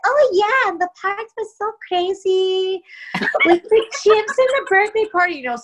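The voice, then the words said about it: Child's voice with Latina accent. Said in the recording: “you gave her this like little Latina accent”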